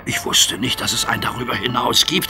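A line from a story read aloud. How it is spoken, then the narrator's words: Whisper. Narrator (German): flüsterte Percy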